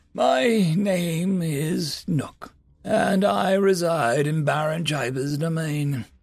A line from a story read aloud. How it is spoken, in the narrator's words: the eldest said in a breathy, strained voice